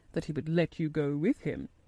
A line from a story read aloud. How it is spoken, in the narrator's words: in a very low voice